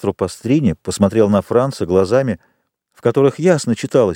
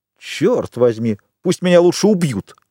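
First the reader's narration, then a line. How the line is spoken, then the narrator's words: Exclaimed. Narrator (Russian): воскликнул Альбер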